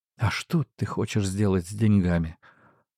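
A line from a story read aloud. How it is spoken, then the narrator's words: Trembling question. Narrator (Russian): дрожащим голосом спросила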